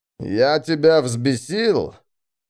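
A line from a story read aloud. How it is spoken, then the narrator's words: Growling. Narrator (Russian): Зарычав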